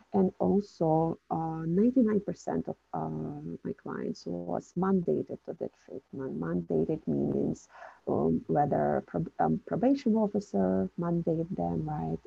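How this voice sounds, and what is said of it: Non-native English accent. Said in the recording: “woman with an accent, right? Who was not raised in this country”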